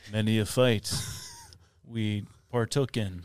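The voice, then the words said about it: Put-on Native American accent. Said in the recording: “I just added a Native American accent”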